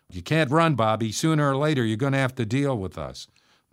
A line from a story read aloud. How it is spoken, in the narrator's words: we heard someone shout